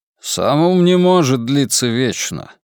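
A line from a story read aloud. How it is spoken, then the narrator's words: Grumbling. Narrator (Russian): проворчал командор Браунинг, глава личной охраны великого инквизитора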